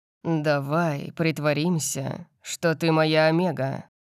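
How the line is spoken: Purring. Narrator (Russian): промурлыкал я

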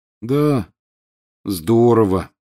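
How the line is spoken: Glum agreement. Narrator (Russian): уныло подтвердил Рон

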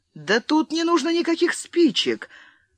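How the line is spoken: Surprised exclamation. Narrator (Russian): с удивлением воскликнул он

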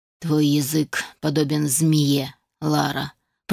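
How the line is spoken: Through gritted teeth. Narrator (Russian): процедила вдовствующая графиня

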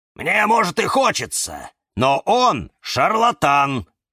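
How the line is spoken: Barking snap. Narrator (Russian): рявкнул кактус Кирилл

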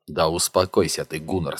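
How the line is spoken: Plain. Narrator (Russian): сказал он

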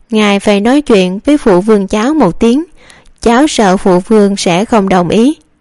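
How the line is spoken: Smiling. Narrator (Vietnamese): Giai Ninh quận chúa mỉm cười

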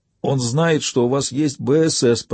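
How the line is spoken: Hoarse wheeze. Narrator (Russian): прохрипел мужчина

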